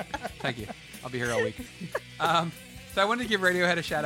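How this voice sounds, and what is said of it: Usual voice. Nothing is said of it.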